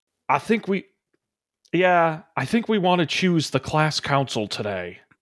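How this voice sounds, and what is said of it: Bored teacher voice, weak accent. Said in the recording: “I'm so bad at accent. ... He's the bored one.”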